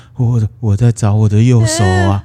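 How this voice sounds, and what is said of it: Miserable, wailing ghostly voice. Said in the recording (Chinese): “用一种很凄惨的声音说”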